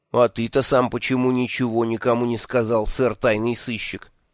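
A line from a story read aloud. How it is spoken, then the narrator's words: Angry question. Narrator (Russian): сердито спросил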